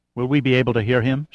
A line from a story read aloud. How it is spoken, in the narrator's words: asked anxiously